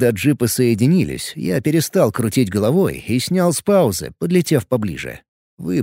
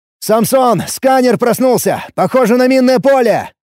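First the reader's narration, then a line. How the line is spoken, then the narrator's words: Shout. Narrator (Russian): крикнул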